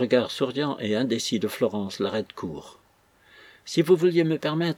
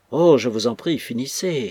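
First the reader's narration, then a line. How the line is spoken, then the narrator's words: Troubled, frightened exclamation. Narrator (French): s'écria Florence, troublée et effrayée un instant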